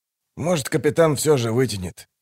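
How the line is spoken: Gruff grumble. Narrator (Russian): буркнул он

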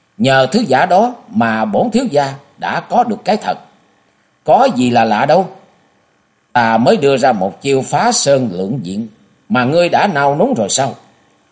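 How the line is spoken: Louder laughter. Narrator (Vietnamese): Nhã Trúc cười lớn hơn

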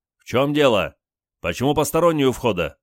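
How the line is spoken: Menacing shout. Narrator (Russian): Олег грозно крикнул

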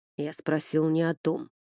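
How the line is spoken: Growl. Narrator (Russian): рыкнул

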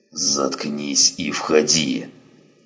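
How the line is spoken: Hissing. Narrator (Russian): прошипел он

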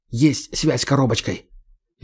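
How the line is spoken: Near whisper. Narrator (Russian): он почти шепотом говорит

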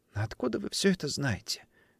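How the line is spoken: Girl's quiet question. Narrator (Russian): тихо спросила девочка

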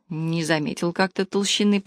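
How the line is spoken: Mumbled. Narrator (Russian): пробормотал Миша

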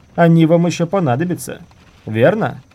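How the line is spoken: Shouting. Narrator (Russian): крикнув юноше

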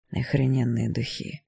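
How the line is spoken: Whisper. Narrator (Russian): прошептал

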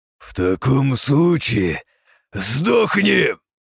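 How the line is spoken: Ferocious growl. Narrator (Russian): Свирепо прорычал он

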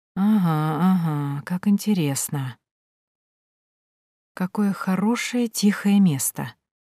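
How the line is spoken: Whisper. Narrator (Russian): прошептала

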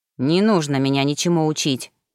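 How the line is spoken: Grumble. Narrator (Russian): буркнул Ремгар

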